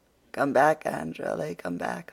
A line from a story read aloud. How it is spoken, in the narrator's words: laughed Philippa